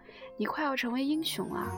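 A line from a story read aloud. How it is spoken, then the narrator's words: Joking. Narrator (Chinese): 我开玩笑地对女儿说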